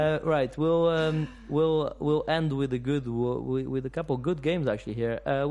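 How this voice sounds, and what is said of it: Usual voice. Nothing is said of it.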